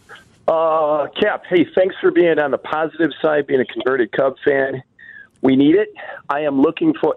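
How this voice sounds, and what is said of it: Breathless, winded speech. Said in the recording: “I'm actually out of breath. I'm walking up to my classroom”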